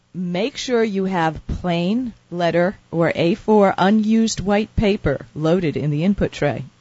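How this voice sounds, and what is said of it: Formal announcer-style radio voice. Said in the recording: “You're using your radio voice ... So you have to use the radio voice for official stuff.”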